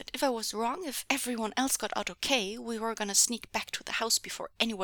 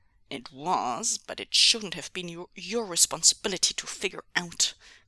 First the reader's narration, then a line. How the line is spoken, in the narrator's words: growled Ming Zhu